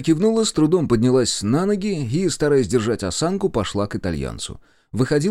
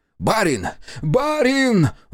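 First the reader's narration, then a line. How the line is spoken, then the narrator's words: Exclamation. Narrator (Russian): воскликнул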